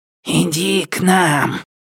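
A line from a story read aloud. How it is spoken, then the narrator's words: Hissing. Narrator (Russian): шипел он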